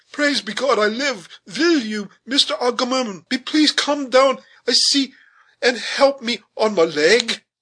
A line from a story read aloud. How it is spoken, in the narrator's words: cried the smothered voice